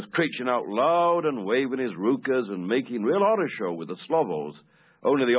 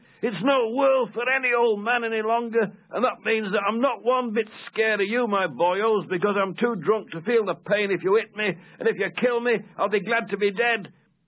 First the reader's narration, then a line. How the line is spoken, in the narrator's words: this old vet kept sort of threatening it with his fists, shouting